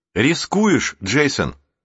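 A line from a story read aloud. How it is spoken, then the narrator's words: Exclaiming. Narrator (Russian): воскликнул Рик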